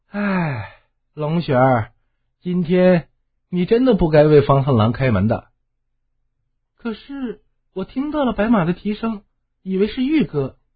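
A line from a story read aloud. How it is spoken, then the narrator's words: Sudden long sigh. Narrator (Chinese): 风怒忽然长叹一声道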